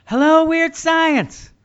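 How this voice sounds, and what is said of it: Impression of another host. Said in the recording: “impersonation of Dan is top notch, really worthy of an Academy Award ... It's spot on.”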